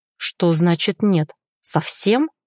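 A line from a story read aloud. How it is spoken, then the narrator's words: Quiet through clenched teeth. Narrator (Russian): Тихо сквозь зубы процедил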